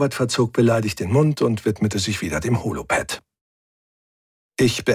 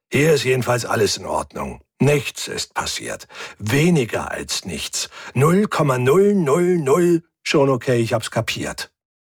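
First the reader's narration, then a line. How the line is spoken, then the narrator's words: Growled. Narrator (German): knurrte Hubert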